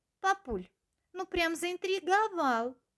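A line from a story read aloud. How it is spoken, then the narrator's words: Impatient child's exclamation. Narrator (Russian): Не выдержав, воскликнул один из малышей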